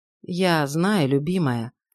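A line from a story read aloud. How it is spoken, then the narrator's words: Wary and sad. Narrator (Russian): сказал настороженно и печально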